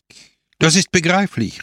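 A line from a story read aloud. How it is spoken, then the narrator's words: Exclaiming. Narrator (German): rief er aus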